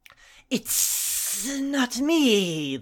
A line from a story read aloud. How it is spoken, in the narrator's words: the snake hissed